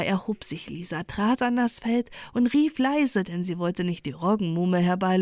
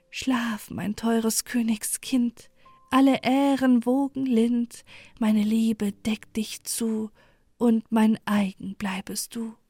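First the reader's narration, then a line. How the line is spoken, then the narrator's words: Soft soothing. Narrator (German): wieder ertönte es sanft und beruhigend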